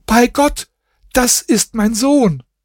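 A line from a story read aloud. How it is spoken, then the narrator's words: Woman's shocked scream. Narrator (German): Als seine Frau ihn sah, schrie sie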